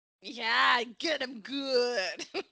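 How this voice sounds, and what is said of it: Put-on wrestling voice. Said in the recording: “I can't stop doing my wrestling voice.”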